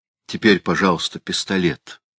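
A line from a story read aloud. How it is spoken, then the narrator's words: Soft demand. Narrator (Russian): мягко потребовал он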